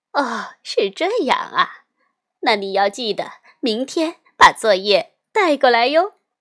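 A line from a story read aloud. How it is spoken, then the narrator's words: Smiling, cheerful. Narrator (Chinese): 夏一老师仍然笑眯眯的说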